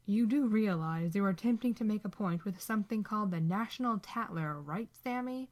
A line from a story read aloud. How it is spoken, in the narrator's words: Dean sneers